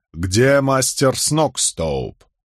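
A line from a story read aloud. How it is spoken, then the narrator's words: Stern question. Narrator (Russian): Я строго вопросил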